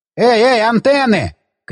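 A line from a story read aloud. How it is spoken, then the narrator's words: Shout from above. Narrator (Russian): крикнул сверху Пит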